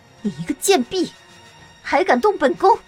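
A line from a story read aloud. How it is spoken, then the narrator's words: Sneering laugh. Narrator (Chinese): 绿儿笑着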